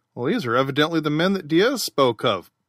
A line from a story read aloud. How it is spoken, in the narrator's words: said Pelton